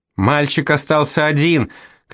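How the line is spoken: Father shouting. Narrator (Russian): кричал папа

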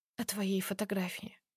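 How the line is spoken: Barely audible whisper. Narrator (Russian): признаюсь едва слышным шепотом

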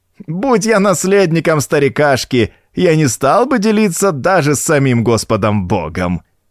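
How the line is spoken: Vile cackling laughter. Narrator (Russian): Гнусно захохотал клерк

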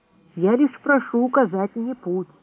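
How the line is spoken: Quiet. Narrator (Russian): тихо произнес я

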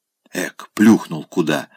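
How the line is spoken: Young man whispering. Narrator (Russian): шепнул молодой чиновник

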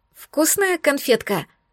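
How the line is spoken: Husky squeaky question. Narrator (Russian): сипло и пискляво спросила я его

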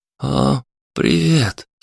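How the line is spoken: Sleepy. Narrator (Russian): сонно произнес Антон

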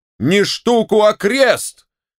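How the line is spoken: General's wife shouting after someone. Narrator (Russian): крикнула вдогонку генеральша

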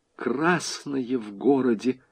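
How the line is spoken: Whisper. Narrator (Russian): шепотом произнесла хозяйка

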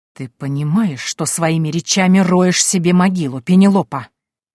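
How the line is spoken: Hissing like a snake. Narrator (Russian): Голос короля стал похож на шипение большой змеи

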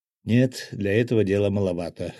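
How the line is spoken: Snort. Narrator (Russian): хмыкнул я

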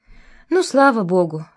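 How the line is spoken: Deep relieved exhale. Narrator (Russian): всей грудью выдохнула Валентина

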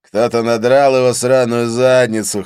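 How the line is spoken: Chuckling, drawling Northern Irish accent. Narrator (Russian): хохотнув, изрек Конкэнон с протяжным североирландским прононсом

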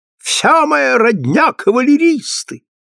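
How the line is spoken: Shrill awful shriek. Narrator (Russian): визжит всегда своим ужасным голосом

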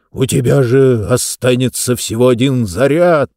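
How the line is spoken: Moan. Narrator (Russian): простонал он

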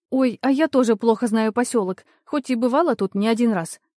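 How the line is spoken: Squeaky. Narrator (Russian): пискнула Ленка

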